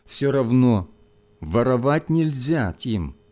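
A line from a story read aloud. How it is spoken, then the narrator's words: Gentle, pitying. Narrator (Russian): мягко сказал учитель, не в силах скрыть жалости к мальчику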